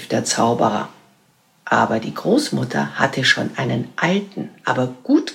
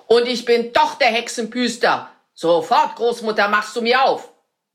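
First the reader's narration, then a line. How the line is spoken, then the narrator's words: Wizard's shout. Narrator (German): schrie der Zauberer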